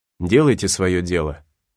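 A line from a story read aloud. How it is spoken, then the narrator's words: Dry, bitter reply. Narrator (Russian): Гатлинг сухо и с горечью ответил ему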